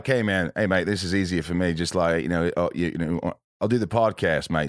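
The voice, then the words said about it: Put-on Australian accent. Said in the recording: “So is that a bad Australian accent? ... It's not bad. Not bad Australian accent,”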